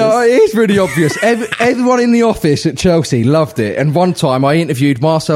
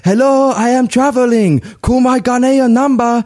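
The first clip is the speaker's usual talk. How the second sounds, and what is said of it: Imitation of Marcel Desailly's accent. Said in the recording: “I did the Desailly accent”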